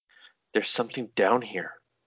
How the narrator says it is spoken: she whispered

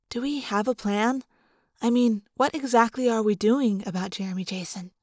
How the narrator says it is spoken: She leaned close and whispered

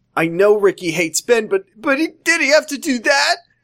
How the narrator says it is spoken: Ashley screamed

